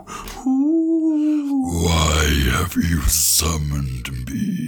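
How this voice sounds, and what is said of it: Demonic demon voice. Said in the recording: “I can also do like a kind of like demonic demon voice. ... Demon voice”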